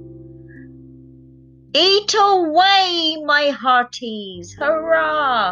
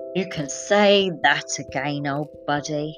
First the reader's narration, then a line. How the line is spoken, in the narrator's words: sighed Farmer Bluster